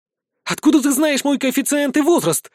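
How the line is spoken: Indignant outburst. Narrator (Russian): возмущенно выпалила эльфийка

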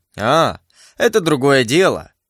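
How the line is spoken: Mocking enemy. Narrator (Russian): сказал враг мой насмешливо

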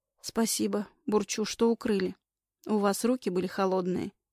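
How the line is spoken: Calm. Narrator (Russian): спокойно отвечает

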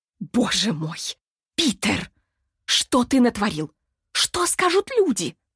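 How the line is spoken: Hissing. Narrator (Russian): шипела она

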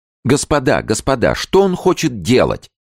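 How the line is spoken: Shouting. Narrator (Russian): закричал Колин

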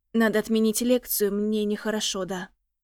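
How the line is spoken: Trembling voice. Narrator (Russian): Подрагивающим голосом

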